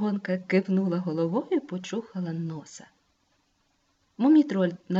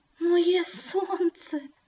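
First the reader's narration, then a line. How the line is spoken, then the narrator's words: Trembling voice. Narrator (Ukrainian): тремтячим голосом повторив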